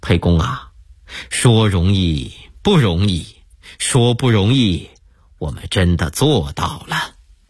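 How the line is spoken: Smiling. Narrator (Chinese): 张良一笑

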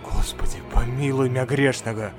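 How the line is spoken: Muttering. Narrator (Russian): Забормотал доктор

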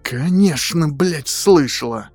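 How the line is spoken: Hoarse angry rasp. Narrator (Russian): Прохрипела Стеф

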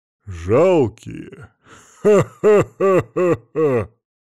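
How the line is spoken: Laughing. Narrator (Russian): рассмеялся Кригер

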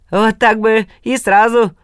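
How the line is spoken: Chuckling. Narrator (Russian): хохотнул Калин-царь

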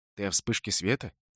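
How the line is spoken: Quiet question. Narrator (Russian): тихо спросил Холт

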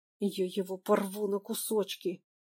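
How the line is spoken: Hissed. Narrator (Russian): шипел журналист

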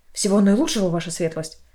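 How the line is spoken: Quick muttering. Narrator (Russian): Репортер быстро пробормотал

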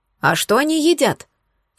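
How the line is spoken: Plain. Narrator (Russian): спросила Спрутовская

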